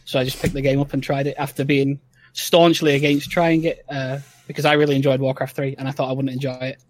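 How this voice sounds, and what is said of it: Rough Northern English accent. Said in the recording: “I absolutely love your accent ... I'm from Northern England, so I have got a bit of a rough and ready English accent ... it didn't sound like traditional English”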